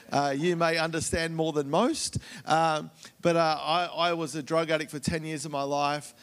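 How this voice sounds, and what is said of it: Australian accent. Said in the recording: “you've already been trained a little in the Australian accent”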